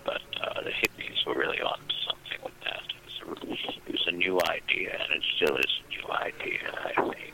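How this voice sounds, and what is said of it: Old-sounding, worn voice. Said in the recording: “If I sound old, it's because I've been smoking all my life. ... Taking a toll on my voice box.”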